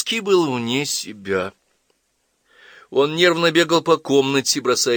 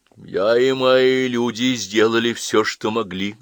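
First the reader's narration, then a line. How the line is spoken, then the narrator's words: Dull, muffled reply. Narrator (Russian): глухо отвечал генерал Дима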